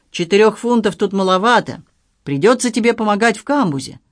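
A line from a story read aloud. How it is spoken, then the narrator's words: Imposing boatswain's tone. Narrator (Russian): внушительным тоном продолжал боцман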